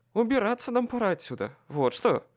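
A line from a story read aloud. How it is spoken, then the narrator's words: Muttered under breath. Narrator (Russian): Буркнул я себе под нос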